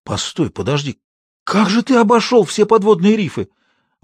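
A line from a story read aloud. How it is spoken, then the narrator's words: Father's admiring exclamation. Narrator (Russian): воскликнул отец восхищенно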